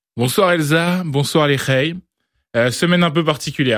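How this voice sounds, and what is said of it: Usual voice. Nothing is said of it.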